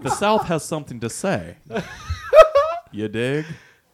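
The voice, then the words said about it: Put-on Southern accent. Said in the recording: “Did he even do it in that accent?”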